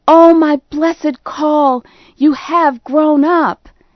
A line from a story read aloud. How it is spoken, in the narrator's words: I cried